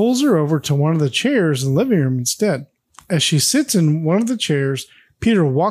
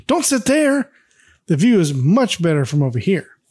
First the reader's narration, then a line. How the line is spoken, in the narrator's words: Peter shouts